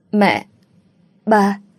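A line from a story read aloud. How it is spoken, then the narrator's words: Stammering. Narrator (Vietnamese): Tôi lắp bắp nói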